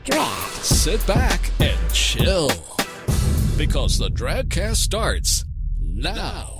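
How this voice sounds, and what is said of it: Radio announcer voice, like Shaggy. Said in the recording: “I, I think I'm really getting this radio voice down ... you sound like Shaggy from Scooby ... I sound like all of those people I, I really don't like on the radio”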